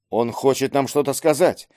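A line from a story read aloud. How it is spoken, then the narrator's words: Whispered. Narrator (Russian): шепотом произнес Марк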